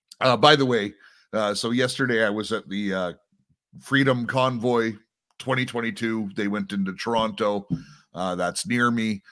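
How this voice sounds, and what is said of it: Slightly rough, hoarse voice. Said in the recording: “I used my voice a lot yesterday... my voice is just a little bit rough because of it”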